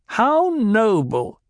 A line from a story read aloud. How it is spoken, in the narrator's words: the Reverend Mother sneered